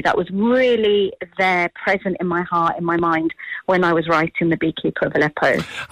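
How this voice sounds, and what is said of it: British accent. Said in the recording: “As somebody who was raised in Britain, and we can hear clearly that from your accent”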